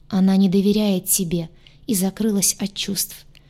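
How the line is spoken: Sad sigh. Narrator (Russian): грустно вздохнул Гадюша

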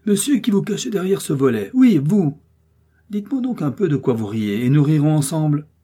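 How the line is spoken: Exclaimed. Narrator (French): s'écria-t-il

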